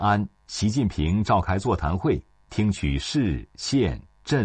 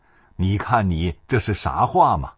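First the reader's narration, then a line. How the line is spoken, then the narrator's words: Hearty laughter. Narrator (Chinese): 习近平哈哈大笑说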